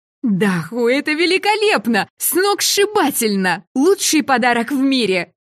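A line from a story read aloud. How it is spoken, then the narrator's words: Excited shouting. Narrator (Russian): завопила я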